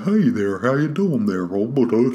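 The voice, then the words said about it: Goofy deep Southern dog voice. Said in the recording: “The dog in a kind of appropriately kind of stupid, it's kind of a deep southy kind of ... Kind of a goofy-ish kind of voice”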